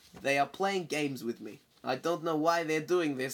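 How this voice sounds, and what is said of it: Put-on accent while quoting someone. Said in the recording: “Oh, you're doing the accent.”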